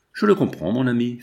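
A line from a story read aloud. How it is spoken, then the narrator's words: Resigned tone. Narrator (French): fit Lucie d'un ton de résignation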